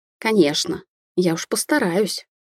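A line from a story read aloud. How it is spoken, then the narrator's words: Cheerful. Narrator (Russian): весело поддержала Сонька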